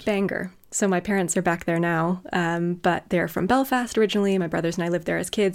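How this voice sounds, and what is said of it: American accent, hard to place. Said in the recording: “are you a Canadian or a nice American? People don't know what to do with my accent ... hence why I've picked up the accent”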